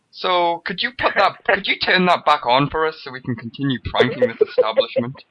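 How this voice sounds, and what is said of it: British accent. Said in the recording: “The one with the British accent?”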